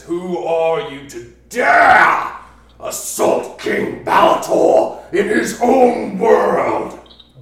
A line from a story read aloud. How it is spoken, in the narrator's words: He roars and he says